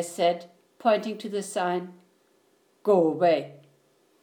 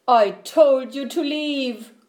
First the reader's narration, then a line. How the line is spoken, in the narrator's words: cried Bear